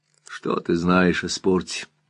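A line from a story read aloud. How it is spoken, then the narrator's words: Soft question. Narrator (Russian): мягко спросил Скип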